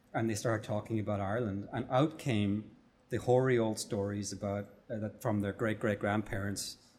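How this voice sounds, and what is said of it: Irish accent. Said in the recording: “they heard my Irish accent”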